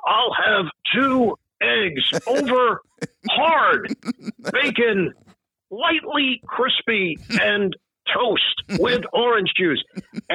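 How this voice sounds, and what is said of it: Marv Albert impression. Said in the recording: “do a Marv impression ... Marv Albert”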